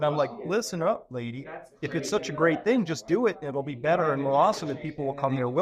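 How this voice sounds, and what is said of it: Usual voice. Nothing is said of it.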